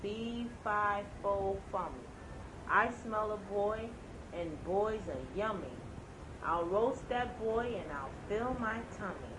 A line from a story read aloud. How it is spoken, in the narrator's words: The giant said in a low, mean voice